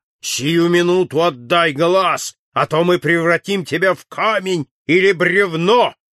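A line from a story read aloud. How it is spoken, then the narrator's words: Menacing growl. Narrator (Russian): зарычали тролльды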